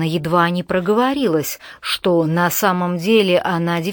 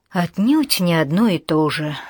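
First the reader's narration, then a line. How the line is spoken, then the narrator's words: Sigh. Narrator (Russian): вздохнул Майлз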